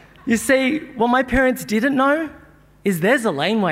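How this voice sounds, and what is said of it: Usual voice. Nothing is said of it.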